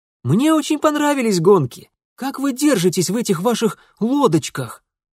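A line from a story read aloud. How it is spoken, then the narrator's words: Quick exclamation, young prince. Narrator (Russian): Немедленно воскликнул младший из великих князей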